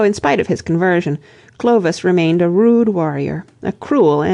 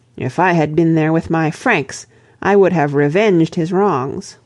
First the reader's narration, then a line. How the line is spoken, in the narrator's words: exclaimed